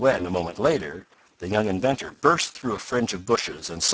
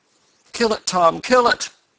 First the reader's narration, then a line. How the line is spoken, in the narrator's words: begged the eccentric man